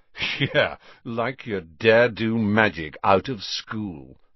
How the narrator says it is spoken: sneered Malfoy

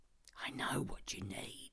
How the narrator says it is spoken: I whisper

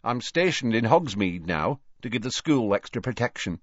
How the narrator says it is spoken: said Tonks

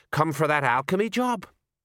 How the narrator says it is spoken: A dwarf smiled nervously

